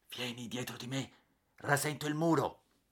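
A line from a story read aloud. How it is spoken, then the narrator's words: Whispered in ear. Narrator (Italian): mi sussurrò in un orecchio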